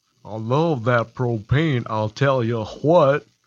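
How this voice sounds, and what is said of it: Hank Hill cartoon character impression. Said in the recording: “My best impression. ... I guess, Hank Hill.”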